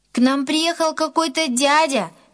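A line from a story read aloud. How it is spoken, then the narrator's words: Shouting from afar. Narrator (Russian): еще издалека крикнул Гена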